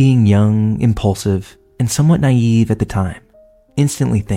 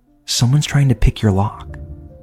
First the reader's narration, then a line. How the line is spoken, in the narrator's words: his eyes are wide, whispers at me